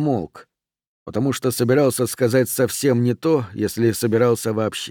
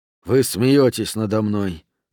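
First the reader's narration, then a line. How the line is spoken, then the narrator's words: Sighing. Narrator (Russian): вздохнул Рент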